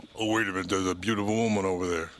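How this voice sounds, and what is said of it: Exaggerated deep male voice. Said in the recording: “All of a sudden, you get this deep voice.”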